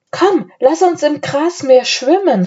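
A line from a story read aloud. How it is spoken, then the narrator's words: Called out. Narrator (German): rief Anne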